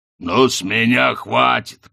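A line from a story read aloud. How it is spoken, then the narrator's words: Growled. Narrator (Russian): прорычал Хрун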